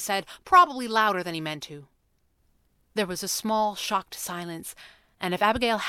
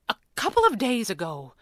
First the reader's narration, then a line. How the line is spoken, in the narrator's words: Abigail's mother sighed